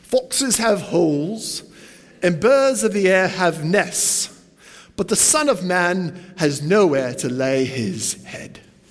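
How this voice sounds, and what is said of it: Put-on British accent, not done well. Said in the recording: “I always imagine Jesus with a British accent. I'm not going to do it very well”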